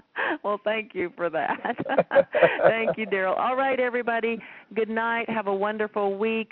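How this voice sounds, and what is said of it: Southern American accent. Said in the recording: “that wonderful little Southern accent”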